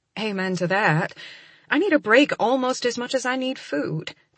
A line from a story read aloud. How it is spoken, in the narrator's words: I murmur, looking up at her with a grin